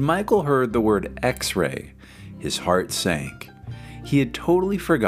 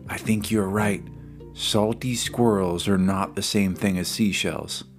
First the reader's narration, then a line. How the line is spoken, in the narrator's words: Justin, he whispered